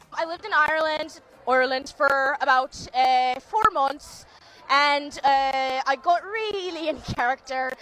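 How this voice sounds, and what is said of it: Put-on Irish accent with Birmingham traces. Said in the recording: “a Brummy accent in there. ... her putting on her Irish accent. ... But there's a bit of a Brummy Birmingham accent.”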